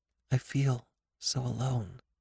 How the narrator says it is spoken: said very quietly, almost to herself

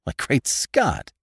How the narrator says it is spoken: exclaimed

